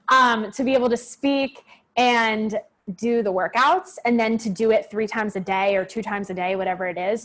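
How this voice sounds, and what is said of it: Hoarse, strained voice. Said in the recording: “Sorry, I'm losing my voice a little bit.”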